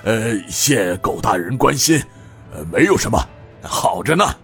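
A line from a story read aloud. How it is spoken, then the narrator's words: Wry bitter smile. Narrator (Chinese): 他苦笑道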